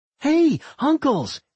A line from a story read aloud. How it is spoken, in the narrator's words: She shouted